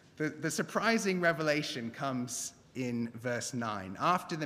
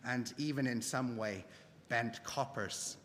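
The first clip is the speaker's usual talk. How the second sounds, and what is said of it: Bad put-on Northern Irish accent. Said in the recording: “That was a terrible Northern Irish accent.”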